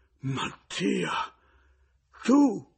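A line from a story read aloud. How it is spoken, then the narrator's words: Piercing shriek. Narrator (Italian): La vedova cacciò uno strillo acutissimo da partoriente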